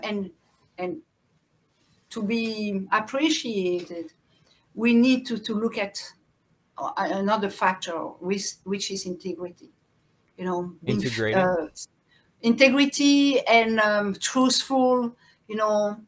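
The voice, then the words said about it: Speaks with a noticeable accent. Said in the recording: “I'm sorry, my accent.”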